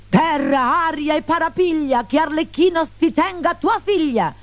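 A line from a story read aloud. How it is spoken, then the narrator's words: Shrieked. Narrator (Italian): strillò Stenterello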